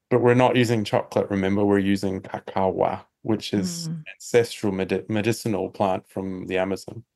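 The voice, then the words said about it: Mixed New Zealand, Australian, British accent. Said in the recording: “It's a little bit New Zealand, a little bit Australia. It's a little bit British. It's a little bit kind of twangy... It felt a little Irish for a moment there... twangy American”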